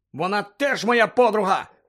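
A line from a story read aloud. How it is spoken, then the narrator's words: Shouted. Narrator (Ukrainian): крикнув Гаррі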